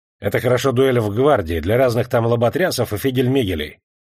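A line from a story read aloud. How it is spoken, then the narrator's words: Rough. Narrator (Russian): говорил грубо Арчаковский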